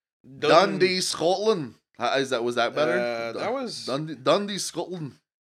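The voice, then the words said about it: Attempted Scottish accent, not convincing. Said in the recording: “How would I do that in a Scottish accent? ... I gotta do better on that”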